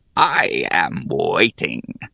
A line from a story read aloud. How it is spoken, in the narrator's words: growled Damnu